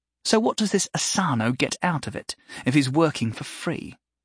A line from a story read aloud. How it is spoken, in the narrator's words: Belinda asked